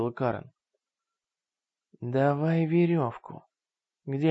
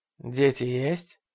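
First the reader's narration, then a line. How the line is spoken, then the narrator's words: Plain. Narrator (Russian): спросил Рой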